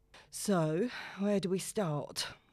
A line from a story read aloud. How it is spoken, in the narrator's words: Letitia sighs